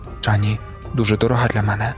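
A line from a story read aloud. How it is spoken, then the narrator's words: Plain. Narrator (Ukrainian): сказала вона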